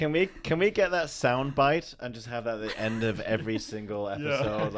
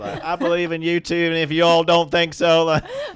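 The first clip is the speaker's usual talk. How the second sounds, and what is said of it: Southern-sounding imitation of another speaker. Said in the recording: “That was my impression of you ... that sounded very Southern”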